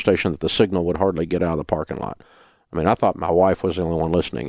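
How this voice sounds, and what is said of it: Mild Southern American accent. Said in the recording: “I didn't want to lose my Southern accent completely... we've cleaned up some of our pronunciation”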